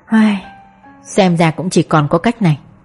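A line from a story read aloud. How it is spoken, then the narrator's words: Sighing. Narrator (Vietnamese): Tôi thở dài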